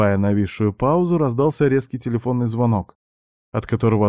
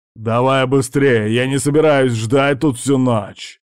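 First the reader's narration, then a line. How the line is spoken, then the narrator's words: Very rude. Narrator (Russian): предельно грубо сказал Джозеф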